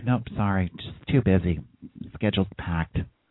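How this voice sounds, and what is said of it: Impression of another person's voice. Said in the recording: “I love that impression.”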